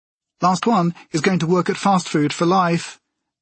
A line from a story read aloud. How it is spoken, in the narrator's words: Jessica shouted